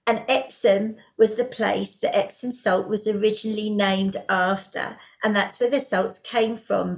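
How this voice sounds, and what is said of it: English accent. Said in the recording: “I come from England. You might have guessed from the accent there.”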